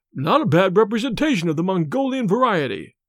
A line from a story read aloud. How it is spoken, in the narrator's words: exclaimed